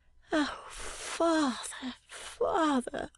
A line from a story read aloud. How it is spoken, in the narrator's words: suddenly murmuring